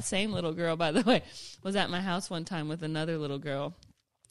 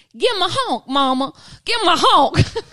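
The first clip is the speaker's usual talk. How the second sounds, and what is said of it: Put-on Southern accent. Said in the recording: “Southern Belle ... where did that accent come from? Like, clearly that's what I sound like to her.”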